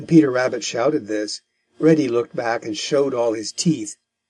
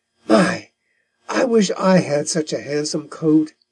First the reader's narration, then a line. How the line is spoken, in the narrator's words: he said, with a long sigh